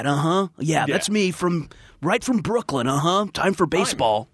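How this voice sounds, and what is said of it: Exaggerated unplaceable American accent. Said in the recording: “I do like Hugh Laurie's American accent. I think it's great. But I definitely think it falls into that category of that just the weird, unplaceable.”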